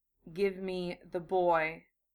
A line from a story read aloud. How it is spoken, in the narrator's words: Gaara said softly